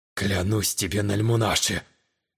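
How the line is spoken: Muttered under breath. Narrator (Russian): В полголоса пробормотал южанин

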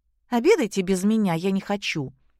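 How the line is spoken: Angry. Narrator (Russian): сердито проговорила Кристина

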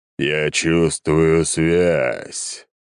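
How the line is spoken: Deep bass voice. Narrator (Russian): пробасило существо

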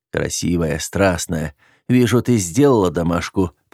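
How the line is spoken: Moaning. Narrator (Russian): простонал я

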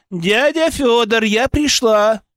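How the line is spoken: Shouting from doorway. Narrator (Russian): крикнула она с порога

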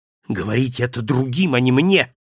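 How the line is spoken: Irritated exclamation. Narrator (Russian): раздраженно воскликнул

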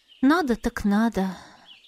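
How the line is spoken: Heavy sigh. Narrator (Russian): Я тяжело вздохнула

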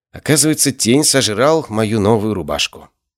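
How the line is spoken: Gloomy reply. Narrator (Russian): мрачно ответила

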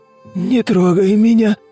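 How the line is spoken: Hoarse wheeze. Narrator (Russian): прохрипел Тимофей

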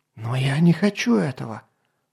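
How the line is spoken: Princess's whispered exclamation. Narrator (Russian): шепотом воскликнула принцесса

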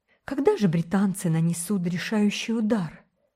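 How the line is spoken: Sighing. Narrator (Russian): вздохнула Гертруда

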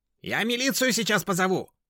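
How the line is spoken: Shrill neighbor's scream. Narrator (Russian): визгливо завопила соседка

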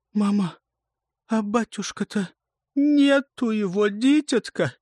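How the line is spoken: Muffled cry. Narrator (Russian): Глухо вскрикнула боярыня

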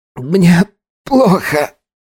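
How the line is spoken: Strained, coughing painfully. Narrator (Russian): сумел выдавить из себя Эркин, снова сгибаясь от мучительного кашля

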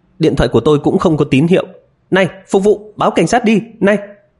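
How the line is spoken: Urgent loud calling. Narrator (Vietnamese): Miêu Anh vội vàng cao giọng la lên

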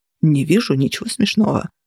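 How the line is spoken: Grumbling. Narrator (Russian): пробурчал Кости

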